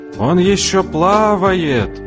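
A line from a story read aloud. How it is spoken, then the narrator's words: Jubilant crowd yelling. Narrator (Russian): Толпа ликующе завопила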